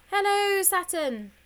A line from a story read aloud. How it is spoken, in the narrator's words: so loudly that George's hands automatically tried to cover his ears